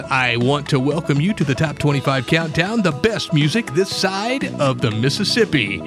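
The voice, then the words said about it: Exaggerated radio announcer voice. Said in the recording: “in my best radio voice ... I can't do the voice.”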